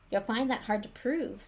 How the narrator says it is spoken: said Hermione

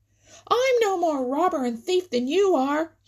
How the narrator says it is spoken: shrieked

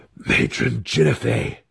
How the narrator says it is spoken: Alton gasped again

